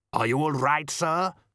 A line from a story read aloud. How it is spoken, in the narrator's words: Modo called out